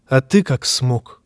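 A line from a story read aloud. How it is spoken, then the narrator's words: Quiet question. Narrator (Russian): тихо спросил Лансель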